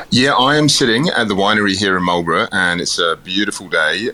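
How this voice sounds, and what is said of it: Soft English accent, mixed influences. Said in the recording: “that's not a typical New Zealand accent that I hear. It sounds like a bit of a mix ... I've still got the English accent ... it's a little bit softer as well”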